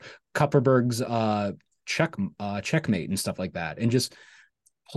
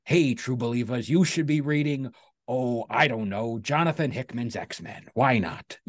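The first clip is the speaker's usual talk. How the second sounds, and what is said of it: Imitates another person's voice. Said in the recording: “That was a pretty good Stan impersonation”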